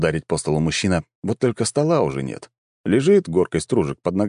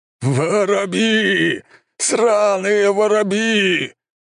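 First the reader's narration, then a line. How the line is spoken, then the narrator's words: Howling commander. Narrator (Russian): взвыл командующий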